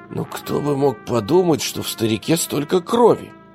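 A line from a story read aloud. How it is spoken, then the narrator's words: Hoarse question to himself. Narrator (Russian): севшим голосом спросил себя Лука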